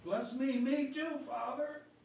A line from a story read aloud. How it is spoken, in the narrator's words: In desperation, Esau cried out